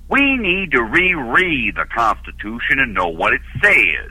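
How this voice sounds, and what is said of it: Impression of Herman Cain. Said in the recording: “how good an impression of Herman Cain that is ... what he thought was ... doing Herman Cain”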